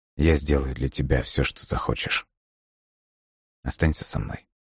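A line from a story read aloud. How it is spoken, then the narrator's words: Barely audible murmur. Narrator (Russian): он еле слышно произнес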